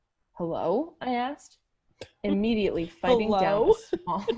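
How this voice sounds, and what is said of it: Usual voice. Nothing is said of it.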